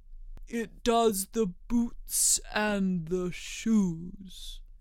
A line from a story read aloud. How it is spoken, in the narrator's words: the Gryphon replied very solemnly